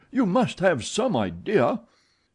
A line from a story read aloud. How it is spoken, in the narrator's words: cried Richard